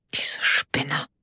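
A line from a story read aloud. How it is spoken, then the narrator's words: Said quietly. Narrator (German): sagte leise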